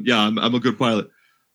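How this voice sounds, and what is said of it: Imitates another person's voice. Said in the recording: “That's my Tom Cruise impression.”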